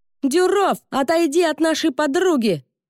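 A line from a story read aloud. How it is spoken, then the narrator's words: Surprisingly loud shout. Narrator (Russian): закричал Мата неожиданно громко для своего маленького роста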